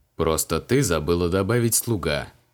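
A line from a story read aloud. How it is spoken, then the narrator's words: Amused snort. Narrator (Russian): хмыкнул маг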